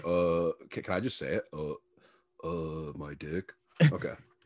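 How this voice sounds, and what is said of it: Imitates another person's voice. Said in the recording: “that was my Trey Adams impersonation.”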